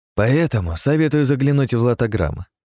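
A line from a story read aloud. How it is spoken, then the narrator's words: Cheerful smirking. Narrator (Russian): весело ухмыльнулся Ростислав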